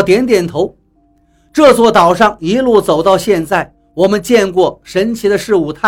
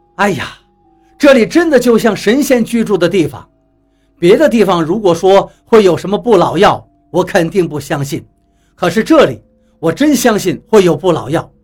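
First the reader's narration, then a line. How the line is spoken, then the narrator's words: Admiring sigh. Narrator (Chinese): 张广川不由得感叹起来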